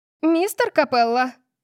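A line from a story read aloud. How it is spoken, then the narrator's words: Shrill shriek. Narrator (Russian): взвизгнула библиотекарша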